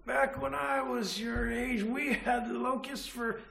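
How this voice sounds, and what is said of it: Old grandpa voice. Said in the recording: “That's my best grandpa voice”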